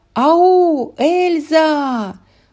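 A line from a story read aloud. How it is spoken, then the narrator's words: Loud call. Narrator (Russian): громко позвала Анна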